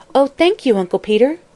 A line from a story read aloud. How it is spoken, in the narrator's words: exclaimed the chair girl gratefully